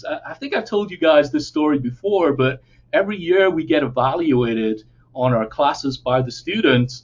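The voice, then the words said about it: English accent. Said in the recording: “my accent. I am from England originally. ... England, UK.”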